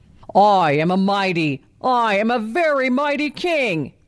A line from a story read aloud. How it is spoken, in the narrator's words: he roared in delight